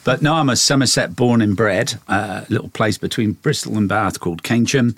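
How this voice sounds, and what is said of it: English accent, not Australian. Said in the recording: “as you'll get from the accent, I've not lost it. I've not got the Aussie accent. ... Little twangs in there”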